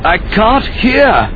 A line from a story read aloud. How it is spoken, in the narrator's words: he shouted